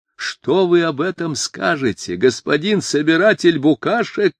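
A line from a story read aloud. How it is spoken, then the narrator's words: Howled loudly. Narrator (Russian): не закричал, а прямо завопил он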